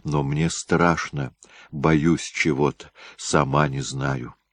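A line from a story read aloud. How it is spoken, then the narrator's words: Trembling voice in ear. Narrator (Russian): дрожащим голосом на ухо матери сказала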